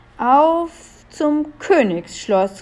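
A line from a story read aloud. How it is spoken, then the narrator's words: Call. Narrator (German): rief Melissa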